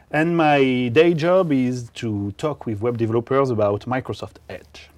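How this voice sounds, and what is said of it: French accent. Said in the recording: “with a strange accent from foreign countries ... He's from the foreign country of France”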